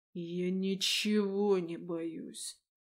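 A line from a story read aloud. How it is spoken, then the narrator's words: King speaking through teeth. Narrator (Russian): процедил король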